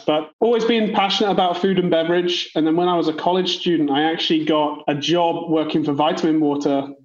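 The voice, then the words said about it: British accent. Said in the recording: “I'm from the UK, so the accent isn't put on”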